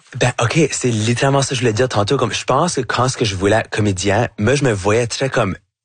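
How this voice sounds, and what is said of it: Acadian French accent. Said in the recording (French): “votre accent acadien ... j'ai un accent qui va jamais être neutre ... avec mon accent, avec mon chiac”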